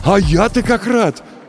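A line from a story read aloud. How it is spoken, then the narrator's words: Exclaimed. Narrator (Russian): воскликнул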